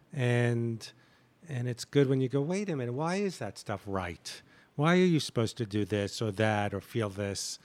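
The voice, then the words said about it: New York accent. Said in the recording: “your New York accent ... your New York accent”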